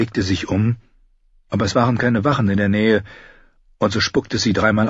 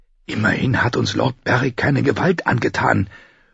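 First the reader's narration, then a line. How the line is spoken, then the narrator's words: Whisper. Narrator (German): flüsterte ihr Freund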